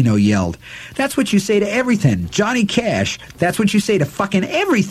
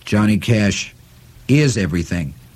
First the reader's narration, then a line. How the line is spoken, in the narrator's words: Henry replied gravely